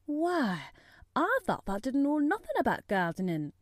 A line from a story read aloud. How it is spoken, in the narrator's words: he exclaimed